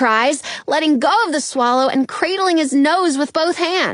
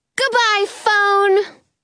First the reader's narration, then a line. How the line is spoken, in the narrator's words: Robin cries